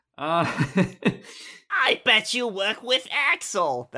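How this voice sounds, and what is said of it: Donald Duck cartoon voice impression. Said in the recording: “my Donald Duck impression ... like Donald Duck mixed with Sora ... with a dash of Gilbert Gottfried in there, too”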